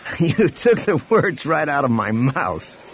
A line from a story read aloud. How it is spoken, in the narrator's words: Han laughed